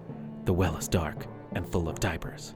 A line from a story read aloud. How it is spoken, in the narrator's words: With a quiet, brooding confidence, probably whispered